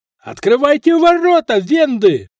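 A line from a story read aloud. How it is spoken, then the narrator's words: Yelling. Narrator (Russian): заорал Франк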